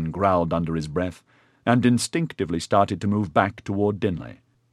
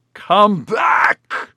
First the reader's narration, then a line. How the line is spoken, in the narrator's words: Edyard howled in frustration